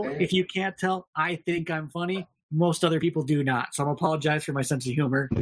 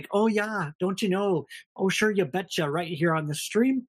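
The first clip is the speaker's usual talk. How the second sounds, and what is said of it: Exaggerated Minnesota accent. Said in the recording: “I have a terrible Minnesota accent.”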